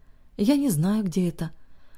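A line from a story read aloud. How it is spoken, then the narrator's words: Very tired, strained. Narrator (Russian): очень устало произнесла собеседница, как будто говорить ей стоило больших усилий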